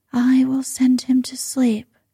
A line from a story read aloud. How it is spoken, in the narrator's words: she murmured